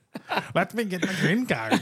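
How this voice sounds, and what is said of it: Poor put-on Indian or Chinese accent. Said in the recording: “That was not the right accent. ... No, it's not a good accent ... it's like Indian. ... No, it's Chinese. It's a Chinese.”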